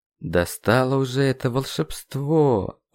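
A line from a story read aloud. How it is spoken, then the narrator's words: Dejected voice. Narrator (Russian): упавшим голосом процитировал я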